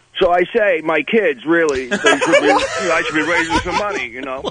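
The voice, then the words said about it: Jerry Lewis impression. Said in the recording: “How about Jerry Lewis? ... Let's hear if you do his impression. ... Jerry Lewis on a telethon.”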